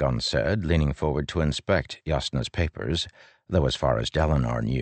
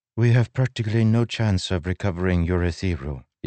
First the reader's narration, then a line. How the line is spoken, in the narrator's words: Jasnah said in Azish, her voice barely accented